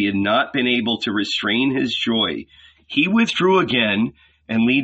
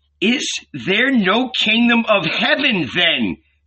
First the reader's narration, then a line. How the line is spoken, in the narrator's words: Peter cried out, terrified